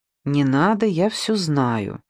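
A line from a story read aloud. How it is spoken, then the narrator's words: Calm. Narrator (Russian): спокойно сказала Александра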